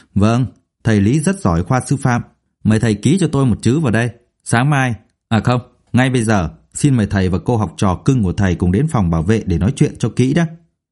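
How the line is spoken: Scornful cold laugh. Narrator (Vietnamese): Thấy vị giảng viên mới tốt nghiệp ít lâu muốn giáo huấn mình, ông Dũng cười nhạt

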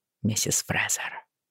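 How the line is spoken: Quiet. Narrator (Russian): произнес он тихо

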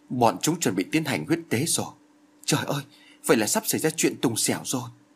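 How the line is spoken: Frightened soft mutter. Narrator (Vietnamese): Phương Tiên Giao chợt kêu lên một tiếng kinh hãi, rồi khẽ lẩm bẩm

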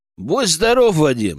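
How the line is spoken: Plain. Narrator (Russian): сказал я

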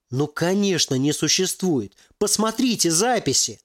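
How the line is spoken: Pleading. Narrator (Russian): взмолился Ярослав

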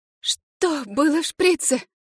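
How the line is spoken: Hoarse rasp. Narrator (Russian): прохрипела я

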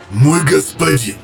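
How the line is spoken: Growling sergeant. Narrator (Russian): прорычал сержант Атраменторов с Крайвока

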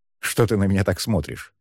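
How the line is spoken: Snorting. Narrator (Russian): хмыкнул Шан

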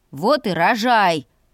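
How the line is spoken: Cornered growl. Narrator (Russian): прорычал загнанный в угол со всех сторон братец

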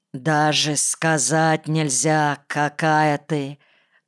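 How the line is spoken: Hoarse, breathless with desire. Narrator (Russian): прохрипел я, задохнувшись от остро подступившего желания

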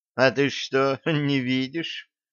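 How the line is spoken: Mocking question. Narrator (Russian): насмешливо спросила Арабелла

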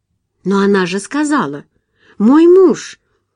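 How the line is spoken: Surprised exclamation. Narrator (Russian): удивленно воскликнула Джулия

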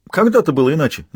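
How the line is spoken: Cheerful smirk. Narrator (Russian): весело усмехнулся Толян

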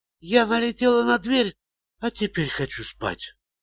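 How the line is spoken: Barely audible reply. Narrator (Russian): едва слышно ответила Шерил

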